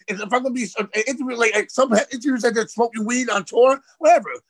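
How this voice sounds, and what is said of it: New York accent. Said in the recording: “I know I have a New York accent. I sound crazy.”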